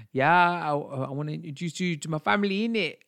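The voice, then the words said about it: Put-on Cockney accent. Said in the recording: “my impression of a Cockney accent”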